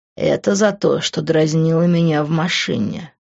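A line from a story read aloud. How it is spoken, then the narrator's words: Low, muffled explanation. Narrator (Russian): глухо пояснил он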